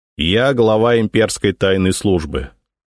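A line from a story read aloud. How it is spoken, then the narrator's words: Dry introduction. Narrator (Russian): сухо представился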